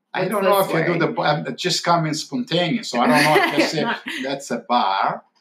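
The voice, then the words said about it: Slight Boston accent. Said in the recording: “Are you doing the Boston accent on purpose? ... You do. You do a little bit. ... You sound like the soprano.”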